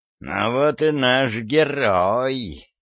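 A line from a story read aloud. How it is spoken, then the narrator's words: Venomous hiss. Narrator (Russian): ядовито прошипел Гордон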